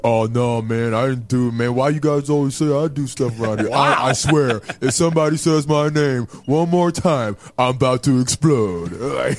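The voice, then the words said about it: Monotone impression of a coworker. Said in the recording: “got that monotone voice. That's pretty good.”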